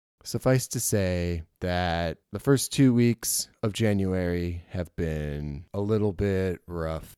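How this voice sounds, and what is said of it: Husky, slightly strange sick voice. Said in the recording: “if I sound a little more husky or my voice is a little strange, it's because I'm still getting over this stupid respiratory virus”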